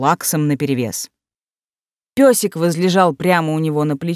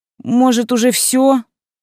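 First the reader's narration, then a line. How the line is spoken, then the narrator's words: Impatient, slightly plaintive question. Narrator (Russian): нетерпеливо и чуточку жалобно спросила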